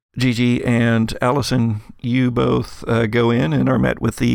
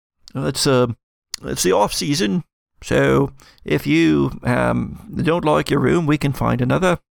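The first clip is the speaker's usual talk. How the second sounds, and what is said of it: Put-on accent for a character. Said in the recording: “I shall never remember this accent. ... Don't even know why I'm talking like this to start with.”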